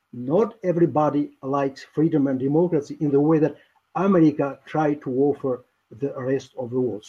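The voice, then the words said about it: Albanian accent. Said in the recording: “is Albanian, as you can tell his accent.”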